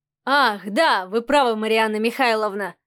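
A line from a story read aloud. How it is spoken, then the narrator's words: Snorting remark. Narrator (Russian): хмыкнул Адмиралов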